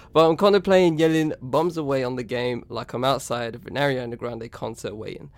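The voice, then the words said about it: Southern British English accent. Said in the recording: “I'm British. I don't live in Manchester. I live below, down south, as you can gather by my accent”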